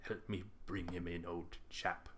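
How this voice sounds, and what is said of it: Imitates a film character's voice. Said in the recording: “That's my Martin's impersonation.”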